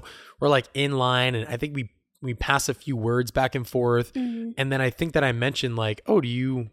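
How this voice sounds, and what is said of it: Usual voice. Nothing is said of it.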